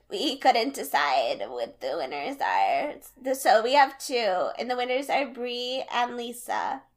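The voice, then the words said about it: Kardashian-style voice with vocal fry. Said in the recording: “your Kardashian impression, ... vocal fry, absolute ... perfect.”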